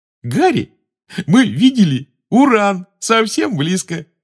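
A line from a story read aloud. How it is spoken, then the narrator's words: Said while giggling. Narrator (Russian): сказал Рон, все еще хихикая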